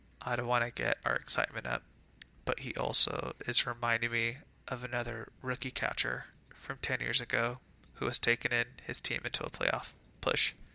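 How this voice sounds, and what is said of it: Whispering. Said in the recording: “I'm whispering right now.”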